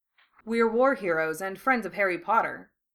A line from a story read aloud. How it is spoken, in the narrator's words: Blaise answered dryly